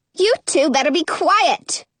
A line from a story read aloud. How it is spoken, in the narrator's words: Lottie snaps